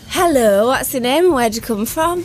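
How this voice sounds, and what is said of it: Put-on northern English accent. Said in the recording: “That's quite a sexy northern accent.”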